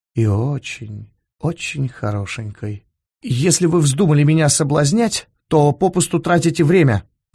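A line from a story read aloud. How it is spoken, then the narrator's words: Embarrassed mumble. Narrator (Russian): краснея пробормотал он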